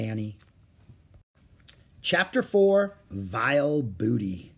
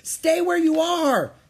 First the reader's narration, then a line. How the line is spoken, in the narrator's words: Jack shouted